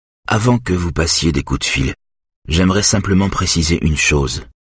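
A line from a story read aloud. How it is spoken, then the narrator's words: Plain. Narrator (French): dit Eric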